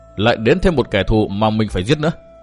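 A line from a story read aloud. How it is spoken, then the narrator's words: Muttered after a huff. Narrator (Vietnamese): Tư Mã Minh thở khì một hơi, lẩm bẩm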